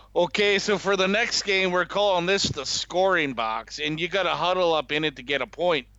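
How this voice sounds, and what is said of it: Put-on North Dakota accent. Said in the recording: “Again with the North Dakota accent.”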